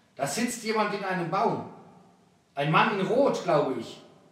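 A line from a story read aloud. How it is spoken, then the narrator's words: Called out. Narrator (German): rief Arwaut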